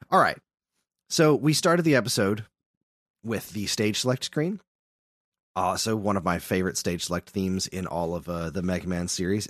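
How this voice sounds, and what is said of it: Slightly hoarse, crunchy voice. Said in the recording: “I've been sick for a couple of days, so I apologize if my voice is a little crunchy today.”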